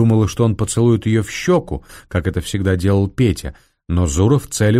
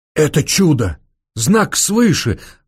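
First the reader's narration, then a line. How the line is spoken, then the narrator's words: Exclamation. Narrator (Russian): воскликнул граф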